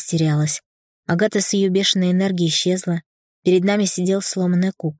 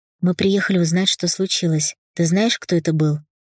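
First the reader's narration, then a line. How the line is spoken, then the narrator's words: Calm, composed. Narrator (Russian): Марк, в отличие от меня, был собран, говорил спокойно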